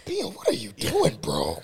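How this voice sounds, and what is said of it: Impression of Jim Knowles. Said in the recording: “an impression of Jim Knowles”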